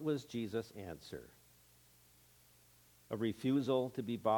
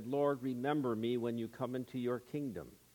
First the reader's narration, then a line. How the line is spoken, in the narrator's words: so overburdened with his sin and with his guilt that he called out to Jesus for help and said